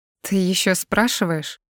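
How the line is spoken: Seething through gritted teeth. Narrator (Russian): Сквозь зубы цежу я, с закипающей яростью

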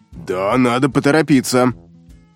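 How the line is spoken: Grumbling, barely restrained anger. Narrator (Russian): пробурчал капитан, едва сдерживая злость

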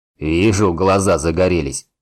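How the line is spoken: Chuckling laugh. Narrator (Russian): хохотнул Рорк

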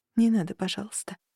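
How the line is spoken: Anguished sudden whisper. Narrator (Russian): вдруг прошептала она с мукой в голосе

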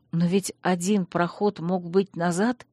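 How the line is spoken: Soundless exhaled words. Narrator (Russian): Танрад беззвучно выдохнул

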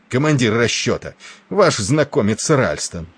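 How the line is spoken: Angry exclamation. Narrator (Russian): гневно воскликнул Тернер

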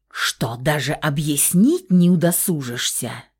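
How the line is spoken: Furious hiss. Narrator (Russian): Взбешенной гадюкой прошипела Тия

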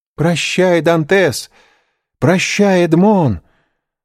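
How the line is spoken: Screamed. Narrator (Russian): закричала Мерседес

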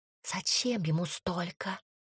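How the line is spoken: Quiet whisper. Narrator (Russian): тихо шепнула Тома

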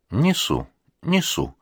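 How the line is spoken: Calm, measured, kindly old man. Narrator (Russian): Старик улыбается доброй улыбкой и говорит спокойно и размеренно

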